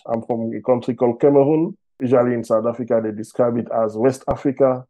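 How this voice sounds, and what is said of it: French-accented English. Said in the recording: “As you can hear from my accent, I speak French.”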